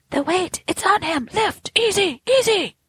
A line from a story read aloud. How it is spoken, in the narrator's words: cried a voice